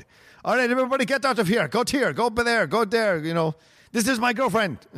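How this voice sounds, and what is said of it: Put-on Greek accent, clipped and throaty. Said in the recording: “He seems almost like Austrian or maybe very Eastern Russian on your version ... I don't know if I can do a Greek accent that well. I'm trying to do his Greek accent ... he gets very like to the point ... his words are inside of his mouth ... in the back mouth”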